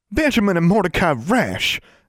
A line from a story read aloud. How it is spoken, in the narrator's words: exclaimed Constance, outraged